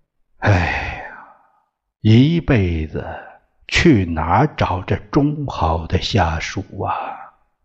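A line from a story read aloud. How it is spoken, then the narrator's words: Sighing with admiration. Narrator (Chinese): 市长很感叹的说了一句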